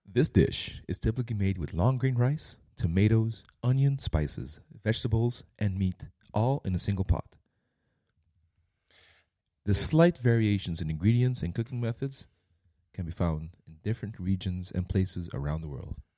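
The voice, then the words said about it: Sexy announcer voice. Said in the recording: “my announcer voice ... Your sexy voice”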